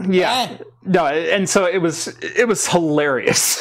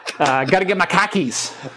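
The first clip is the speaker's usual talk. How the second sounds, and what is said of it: Put-on Boston accent. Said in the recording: “I now understand where the Boston accent came from.”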